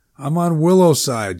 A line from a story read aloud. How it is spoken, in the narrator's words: Jack said